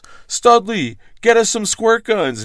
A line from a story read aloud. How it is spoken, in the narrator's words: Neil yelled back